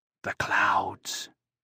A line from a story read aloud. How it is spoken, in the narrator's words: he whispered